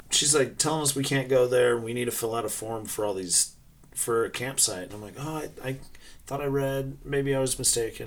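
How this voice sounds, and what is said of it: Utah accent. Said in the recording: “I know you can probably hear our Utah accents.”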